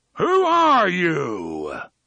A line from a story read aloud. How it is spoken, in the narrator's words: A voice roared, and it came not just from the box, but from every speaker in the city which still operated